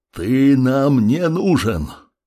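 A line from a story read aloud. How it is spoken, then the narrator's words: Calm, magically amplified voice. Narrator (Russian): Маг выдержал поток силы жизни, усиливший голос, и спокойно ответил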